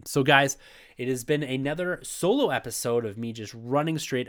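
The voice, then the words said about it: Voice slightly off, congested. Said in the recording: “my voice is a little off as I am battling here through this cold”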